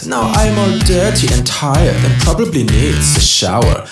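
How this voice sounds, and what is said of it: Put-on German accent. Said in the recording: “I have the German accent”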